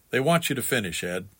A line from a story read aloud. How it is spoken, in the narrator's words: quietly saying